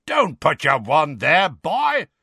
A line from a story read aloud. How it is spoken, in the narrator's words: roared Moody